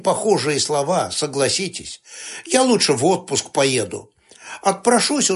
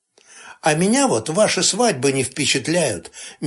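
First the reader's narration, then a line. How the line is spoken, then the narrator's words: Dreamy sigh. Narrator (Russian): мечтательно вздохнул Липкин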